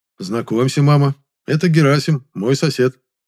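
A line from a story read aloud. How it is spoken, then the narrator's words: Polite social tone. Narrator (Russian): светским тоном представил его я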